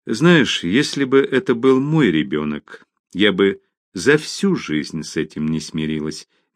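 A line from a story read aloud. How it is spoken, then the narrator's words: Gentle, kind teacher. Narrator (Russian): мягко сказала более добросердечная учительница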